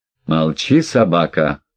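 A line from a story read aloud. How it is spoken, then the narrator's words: Growled. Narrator (Russian): прорычал сэр Вольмар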